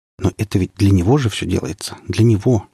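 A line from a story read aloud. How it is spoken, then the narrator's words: Whispering to himself. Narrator (Russian): шептал сам себе Сергей Петрович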